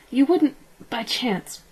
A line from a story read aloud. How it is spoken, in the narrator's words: croaked